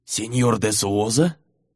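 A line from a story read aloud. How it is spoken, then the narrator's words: Hoarse, rough voice. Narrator (Russian): Голос у полковника был сиплый и как будто шершавый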